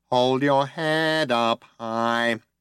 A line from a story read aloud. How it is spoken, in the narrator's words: it whined nasally